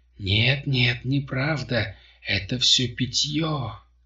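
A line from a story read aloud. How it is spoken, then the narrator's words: Moaning. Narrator (Russian): Простонала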